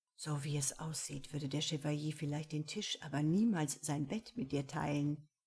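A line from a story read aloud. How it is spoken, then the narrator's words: Low murmur. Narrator (German): raunte er ihr dabei zu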